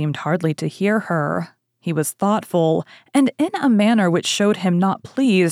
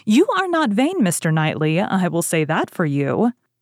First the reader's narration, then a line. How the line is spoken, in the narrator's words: Emma was pleased enough to exclaim